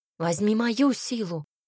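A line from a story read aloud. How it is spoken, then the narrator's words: Passionate exclamation. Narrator (Russian): воскликнула Ирис горячо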